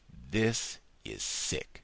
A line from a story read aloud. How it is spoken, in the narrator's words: he said slowly